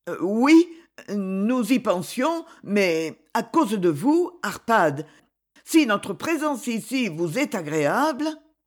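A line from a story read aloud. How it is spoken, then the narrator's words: Stammering. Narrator (French): La comtesse, un instant saisie, balbutia enfin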